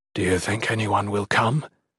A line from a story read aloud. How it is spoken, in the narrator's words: Gerund quietly asked